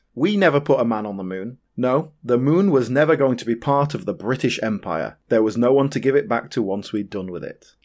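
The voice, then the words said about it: Flat deadpan delivery. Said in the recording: “are you going to do it really deadpan? ... I'm going to do it dead ... Let's give it a go deadpan”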